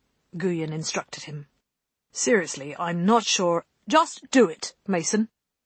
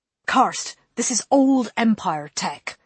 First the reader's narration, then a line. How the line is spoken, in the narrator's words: Holston snapped